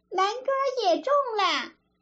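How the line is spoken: Shouting from outside. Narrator (Chinese): 外面又嚷

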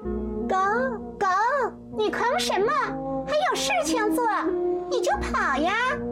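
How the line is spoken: Angry calling. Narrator (Chinese): 翠翠用生气的口吻喊着

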